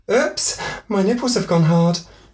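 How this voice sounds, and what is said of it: Put-on comedic woman's voice. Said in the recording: “Is that meant to be an American accent? ... Just a generic-y. ... It sounded like Monty Python.”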